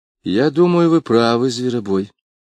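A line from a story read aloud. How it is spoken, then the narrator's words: Sad, thoughtful girl. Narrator (Russian): печальным голосом сказала девушка после долгого размышления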